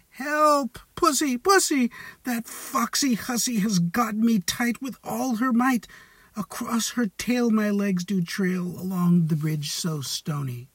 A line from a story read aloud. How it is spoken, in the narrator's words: the cock cried